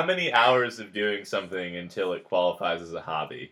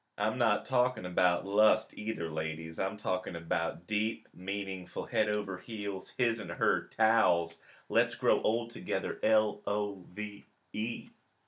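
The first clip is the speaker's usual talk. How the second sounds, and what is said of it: Matthew McConaughey impression. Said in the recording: “You are really refining your McConaughey impression.”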